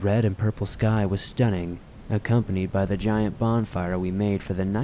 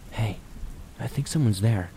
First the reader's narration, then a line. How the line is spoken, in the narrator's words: Wolf whispered